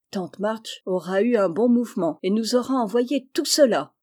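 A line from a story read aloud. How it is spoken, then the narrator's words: Suddenly inspired exclamation. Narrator (French): s'écria Joe, subitement inspiré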